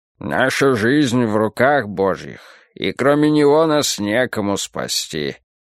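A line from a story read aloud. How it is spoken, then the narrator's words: Gloomy. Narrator (Russian): мрачно сказал доктор Уильсон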